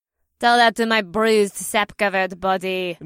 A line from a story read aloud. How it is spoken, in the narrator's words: Nadir grumbled